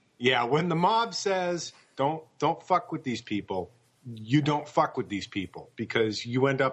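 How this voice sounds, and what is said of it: Usual voice. Nothing is said of it.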